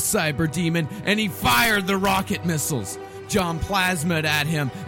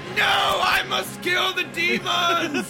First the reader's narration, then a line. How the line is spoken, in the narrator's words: he shouted